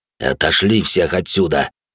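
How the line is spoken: Hiss, otherworldly shard. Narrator (Russian): прошипел осколок единого

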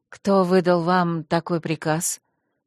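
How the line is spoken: Polite, deadly cold. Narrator (Russian): осведомилась она неукоснительно учтивым и смертельно холодным тоном

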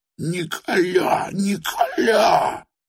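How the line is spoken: Moaning. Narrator (Russian): простонала опять жертва

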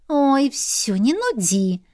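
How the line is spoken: Snort. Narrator (Russian): фыркнула сестра

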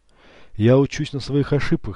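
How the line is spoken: Calm. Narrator (Russian): спокойно ответил он

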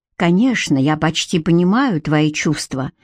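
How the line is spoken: Whisper. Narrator (Russian): прошептал

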